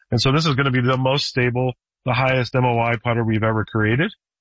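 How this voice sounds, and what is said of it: Hoarse, strained voice. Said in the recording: “I'm losing my voice. The allergies been getting me.”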